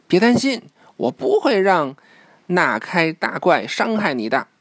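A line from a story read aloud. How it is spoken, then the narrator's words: Shouting. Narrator (Chinese): 呱唧大叫道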